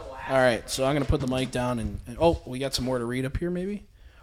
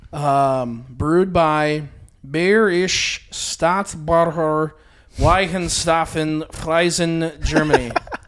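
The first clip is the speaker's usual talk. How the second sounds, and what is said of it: Good put-on German accent. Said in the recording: “That was a good little German accent there.”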